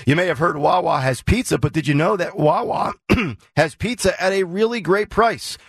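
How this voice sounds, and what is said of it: Slightly hoarse voice. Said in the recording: “getting a little hoarse here”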